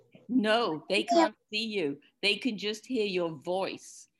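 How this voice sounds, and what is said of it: Foreign accent. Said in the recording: “it's a bit funny sounding, isn't it? Because I've got this accent from another place.”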